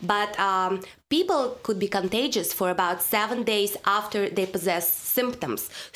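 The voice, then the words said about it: Russian accent. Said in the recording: “that's all my Russian accent”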